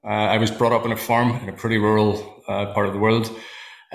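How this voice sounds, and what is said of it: Northern Irish accent. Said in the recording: “you can probably hear from my accent. I live in Northern Ireland.”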